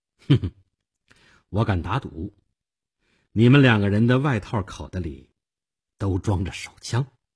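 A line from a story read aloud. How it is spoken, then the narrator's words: Faint smile. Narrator (Chinese): 我淡淡的一笑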